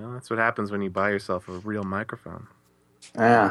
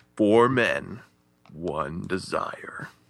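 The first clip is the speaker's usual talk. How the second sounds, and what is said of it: Dramatic movie trailer narrator voice. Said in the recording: “that was a great trailer voice”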